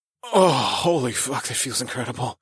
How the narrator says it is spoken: I groaned

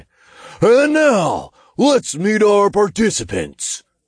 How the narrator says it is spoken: the imp boomed

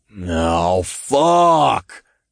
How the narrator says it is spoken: Todd groaned

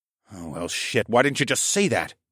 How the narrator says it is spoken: I muttered

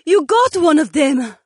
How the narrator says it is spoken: Jessamine cried out with excitement

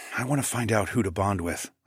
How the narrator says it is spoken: I whispered

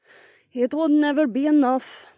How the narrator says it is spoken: Carmen sighed

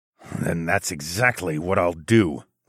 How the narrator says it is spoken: I growled

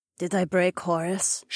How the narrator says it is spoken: She asked quietly

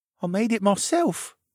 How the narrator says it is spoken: said timidly still shining with tears

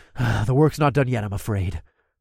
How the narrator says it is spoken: I sighed

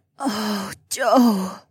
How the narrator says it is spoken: groaned softly

